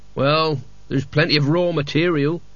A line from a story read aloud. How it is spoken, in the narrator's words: sighed Lezek